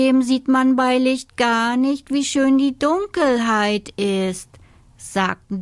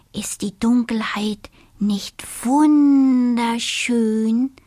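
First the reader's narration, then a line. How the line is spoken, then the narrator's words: Very soft whisper. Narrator (German): flüsterte der kleine Siebenschläfer, so leise er konnte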